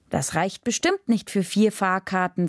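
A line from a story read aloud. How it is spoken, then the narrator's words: Plain. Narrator (German): sagte ich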